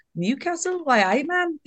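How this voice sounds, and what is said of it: Bad put-on Geordie accent. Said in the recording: “Is that a bad accent? ... Yeah, I think that was very bad.”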